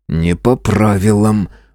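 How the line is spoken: Grumbling mutter. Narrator (Russian): буркнул я

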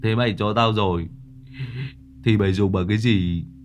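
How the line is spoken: Moved, choked up. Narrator (Vietnamese): Thằng Hoạn Ngẫn cảm động, nó mếu máo

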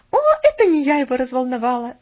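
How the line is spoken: Laughing. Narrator (Russian): засмеялась она

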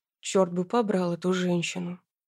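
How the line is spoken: Grumbling man. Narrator (Russian): проворчал мужчина

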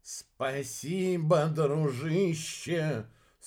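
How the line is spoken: Heartfelt shout over wind. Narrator (Russian): с чувством прокричал в ответ Иха, потому что именно в этот момент по мини-цеппелю ударил особенно сильный порыв ветра

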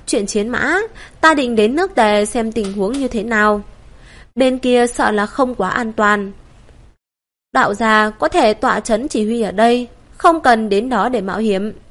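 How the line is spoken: Smiling. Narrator (Vietnamese): Ngư Hữu Đạo mỉm cười

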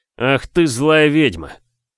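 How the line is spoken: Hoarse hiss through teeth. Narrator (Russian): сквозь зубы просипел

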